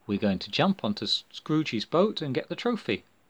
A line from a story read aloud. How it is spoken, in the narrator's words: answered Athelflaed calmly